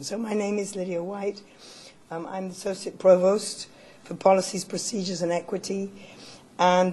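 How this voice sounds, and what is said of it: Strained, fading voice. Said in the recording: “As you can hear, I'm losing my voice, so I hope you can hear me”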